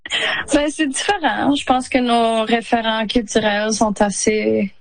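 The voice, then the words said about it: Non-Quebec regional French accent. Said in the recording (French): “j'ai un accent quand je suis au Québec”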